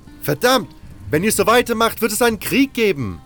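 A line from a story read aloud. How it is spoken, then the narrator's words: Shouting. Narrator (German): schrie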